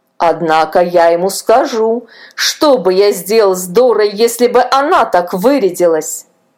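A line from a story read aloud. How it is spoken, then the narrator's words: Grumbling. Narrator (Russian): проворчал Илья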